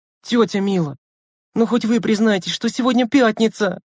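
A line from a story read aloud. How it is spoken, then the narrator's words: Pleading girl. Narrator (Russian): Взмолилась девочка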